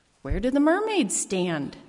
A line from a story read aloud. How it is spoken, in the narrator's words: A small child stands there looking up and asks in a small, concerned voice